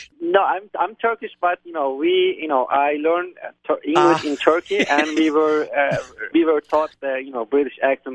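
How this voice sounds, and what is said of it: Turkish-accented English with British tones. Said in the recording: “you have a Turkish accent ... It's actually the British accent ... Oh, it's a little British?”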